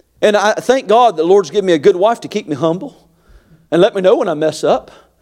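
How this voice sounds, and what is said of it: Carolina Southern US accent. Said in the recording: “He's given me a Carolina accent”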